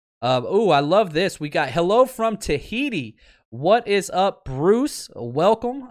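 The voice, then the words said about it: Loud, excited yelling. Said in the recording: “why am I yelling? ... I'm too pumped up, man. I'm too excited. So if you got to turn down your sound a little bit”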